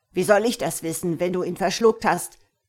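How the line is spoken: Angry roaring. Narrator (German): brüllte der Nussknacker wütend

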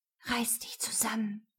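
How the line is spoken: Whispered. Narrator (German): flüstere ich

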